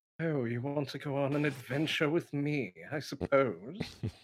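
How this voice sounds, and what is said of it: Snooty posh character voice. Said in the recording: “I would just talk snooty all the time ... do that voice”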